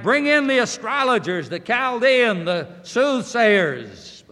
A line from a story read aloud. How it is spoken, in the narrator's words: he cried